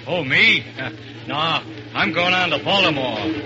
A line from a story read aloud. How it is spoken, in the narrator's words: the fat man grunts